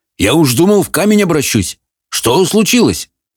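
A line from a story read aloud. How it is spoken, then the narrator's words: Barking retort. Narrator (Russian): Софи в ответ рявкнула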